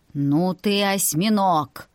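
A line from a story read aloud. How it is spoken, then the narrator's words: Grumbled. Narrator (Russian): ворчал Ноэль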